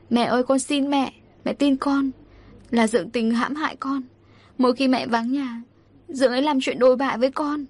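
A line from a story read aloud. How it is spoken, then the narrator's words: Tearful pleading. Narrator (Vietnamese): Tôi khóc lóc van xin mẹ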